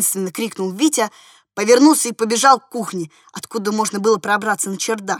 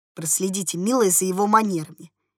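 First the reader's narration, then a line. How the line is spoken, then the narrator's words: Quiet, disdainful, clear. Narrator (Russian): негромко, но брезгливо и ясно проговорила спецдама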